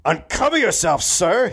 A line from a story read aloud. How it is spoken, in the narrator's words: Hitchcock shouted